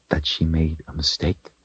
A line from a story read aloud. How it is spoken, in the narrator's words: she said softly